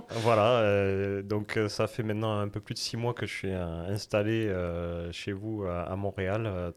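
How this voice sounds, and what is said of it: Southwest French accent. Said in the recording (French): “ton accent, euh, l'accent... oui. français... originaire de France et mon accent, c'est même le sud-ouest de la France”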